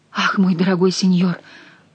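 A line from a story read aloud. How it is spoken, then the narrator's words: Mumbling. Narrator (Russian): пробормотала Жанна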